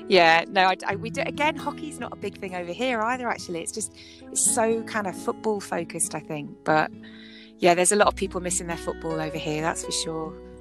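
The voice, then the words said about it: English accent. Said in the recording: “you have a beautiful accent ... my English accent. You know, proper English accent”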